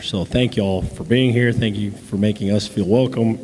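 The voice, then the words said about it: Strained, fading hoarse voice. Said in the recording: “I'm losing my voice.”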